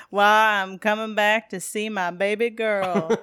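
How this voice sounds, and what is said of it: Southern accent, half Elvis-style impression. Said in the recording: “his Southern accent really stuck out to me as a particular gem... that kind of half Elvis impersonation”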